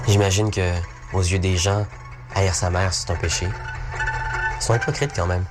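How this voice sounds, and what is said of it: Québécois French accent. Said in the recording (French): “le toujours jeune prodige du cinéma québécois. Question accent, ça donne ça.”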